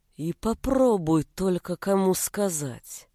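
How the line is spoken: Slow, through gritted teeth. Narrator (Russian): Так же медленно, сквозь зубы, процедил отчим

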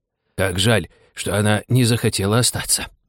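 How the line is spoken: Sighing. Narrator (Russian): вздохнул Лори

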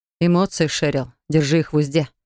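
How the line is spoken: Teacher's icy rebuke. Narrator (Russian): осадил меня ледяным тоном преподаватель

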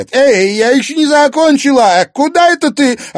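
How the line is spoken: Sudden shout. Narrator (Russian): Опомнившись, крикнула она

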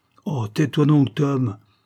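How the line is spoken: Exclamation. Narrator (French): s'écria Mr

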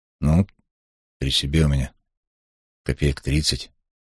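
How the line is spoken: Uncertain statement. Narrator (Russian): неуверенно заявил Асташев

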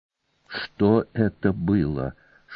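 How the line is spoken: Whispered question. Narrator (Russian): шепотом спросила Кана

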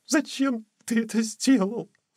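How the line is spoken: Sobbing question. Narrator (Russian): всхлипывая, спросила она

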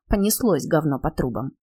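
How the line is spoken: Muttered to herself. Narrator (Russian): Нина скривила губы, пробормотав про себя

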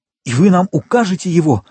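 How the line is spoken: Exclaiming. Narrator (Russian): воскликнул Максимилиан

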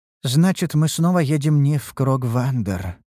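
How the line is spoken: Sighing. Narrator (Russian): вздохнула Ульданте

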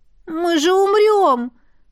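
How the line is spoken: Moan. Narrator (Russian): простонала я

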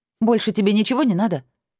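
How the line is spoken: Snapped retort. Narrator (Russian): Огрызнулась

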